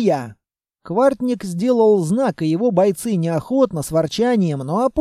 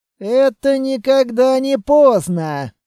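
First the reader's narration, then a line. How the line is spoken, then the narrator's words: Grumbled. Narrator (Russian): проворчал Квартник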